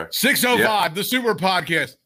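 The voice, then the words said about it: Imitates another person's voice. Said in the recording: “My new imitation is Brian Last, the great Brian Last”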